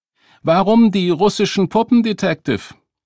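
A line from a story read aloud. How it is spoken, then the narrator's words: Woman calling out. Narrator (German): Eine ... Frau ... rief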